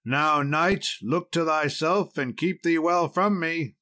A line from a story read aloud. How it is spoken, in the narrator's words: cried out Sir Accolon